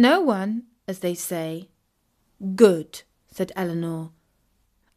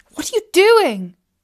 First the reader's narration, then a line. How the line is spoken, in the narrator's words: cried out Katie in dismay